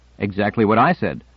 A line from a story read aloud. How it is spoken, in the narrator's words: Donald said with a chuckle